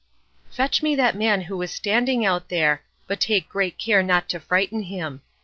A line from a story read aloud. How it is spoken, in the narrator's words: whispered in his ear